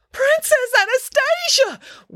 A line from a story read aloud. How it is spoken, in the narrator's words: wailed a buxom, well-dressed older woman